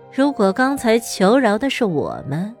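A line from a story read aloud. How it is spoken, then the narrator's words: Sarcastic. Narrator (Chinese): 目露讽刺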